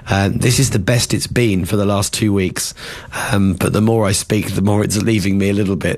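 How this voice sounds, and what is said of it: Hoarse, gravelly, nearly lost voice. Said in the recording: “I don't normally sound like this... I've been unwell... I've pretty much lost my voice... I don't normally sound as gravelly as this, like I've been theoretically smoking 100 cigarettes”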